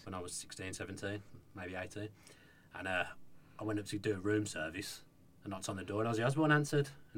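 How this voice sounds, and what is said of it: Strong Brummie accent. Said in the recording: “did you get more Brummy there a second? ... my accent's quite strong anyway”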